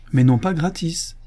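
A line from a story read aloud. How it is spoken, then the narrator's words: Exclaimed. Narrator (French): s'écria Madame Grobara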